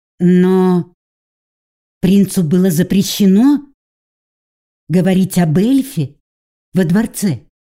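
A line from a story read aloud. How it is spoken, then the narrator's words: Uncertain. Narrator (Russian): Неуверенно приговорила я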